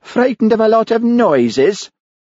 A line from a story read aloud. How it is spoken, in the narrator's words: jeered Hamish